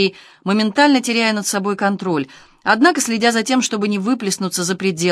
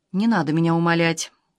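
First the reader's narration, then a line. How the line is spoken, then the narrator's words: Cold. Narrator (Russian): холодно сказала она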